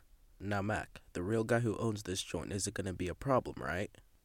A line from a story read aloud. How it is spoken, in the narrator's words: chuckled